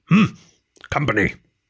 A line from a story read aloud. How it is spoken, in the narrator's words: The badger grunted